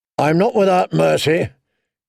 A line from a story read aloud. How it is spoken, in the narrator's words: thundered he who was notoriously without mercy